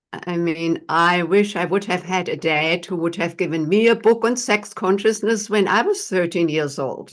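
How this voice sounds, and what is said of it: German accent. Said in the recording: “as everyone who is listening can tell from my accent, I was not born here in the United States. I'm from Germany”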